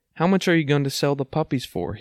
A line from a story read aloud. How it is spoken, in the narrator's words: asked